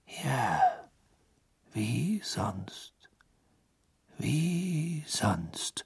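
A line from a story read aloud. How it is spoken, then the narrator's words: Murmuring. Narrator (German): murmelte Dumbledore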